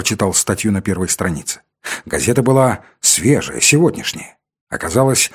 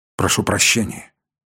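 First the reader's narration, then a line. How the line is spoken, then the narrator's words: Dejected voice. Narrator (Russian): сказал я упавшим голосом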